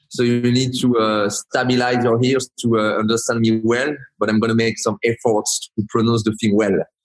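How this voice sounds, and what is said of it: Strong French accent. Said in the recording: “I have a really strong French accent”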